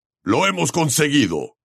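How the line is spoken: Gamekeeper shouting. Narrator (Spanish): gritó el guardabosques

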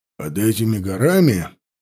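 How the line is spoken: Gloomy reply. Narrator (Russian): мрачно отозвался глава ловчих

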